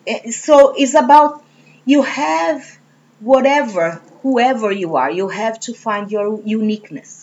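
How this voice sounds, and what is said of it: Speaks with a foreign accent. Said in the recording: “I have what? The accent. So it's easier for people to remember me because of my accent.”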